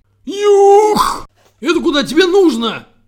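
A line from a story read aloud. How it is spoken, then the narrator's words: Breathless moan. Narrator (Russian): Задыхаясь от собственного крика, простонал воробей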